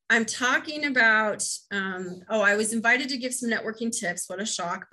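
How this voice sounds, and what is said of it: American Midwest accent. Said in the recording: “my Midwest accent”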